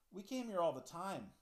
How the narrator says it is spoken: I said, wistfully

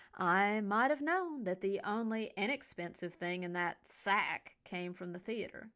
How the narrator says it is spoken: Henry said in a badly exaggerated accent, rolling the R at the end with extra relish

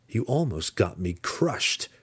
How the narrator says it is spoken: Drizzt snarled at him

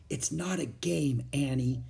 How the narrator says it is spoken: Jack whispered back

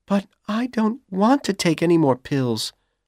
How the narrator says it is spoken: Dorothy said nervously

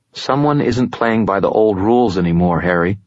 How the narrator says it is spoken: he said

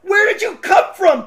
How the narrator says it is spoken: Big Klaus exclaimed

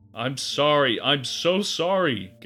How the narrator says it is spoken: Gary cried

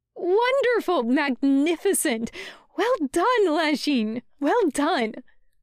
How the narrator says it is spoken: Wei Ying exclaims, proudly

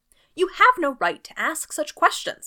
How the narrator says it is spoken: he cried

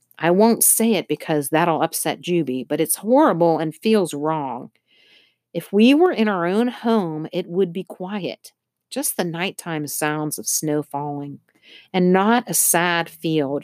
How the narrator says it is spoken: she added fiercely

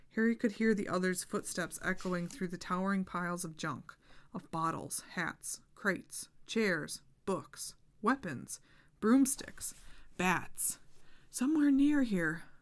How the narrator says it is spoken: Harry muttered to himself

